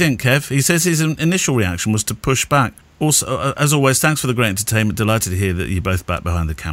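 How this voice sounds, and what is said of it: Usual voice. Nothing is said of it.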